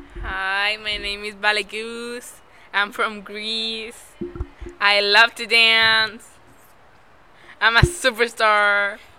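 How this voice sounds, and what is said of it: Put-on Greek accent. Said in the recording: “I love your accent. It's from Greece, right?”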